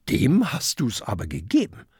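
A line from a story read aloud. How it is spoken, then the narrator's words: Plain. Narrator (German): sagt Kokosnuss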